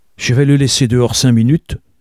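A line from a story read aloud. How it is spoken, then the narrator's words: Exclaimed. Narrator (French): s'écria-t-il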